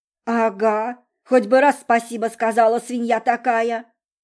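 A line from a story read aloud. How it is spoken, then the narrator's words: Quiet angry father. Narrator (Russian): Добавил папа тихим и злым голосом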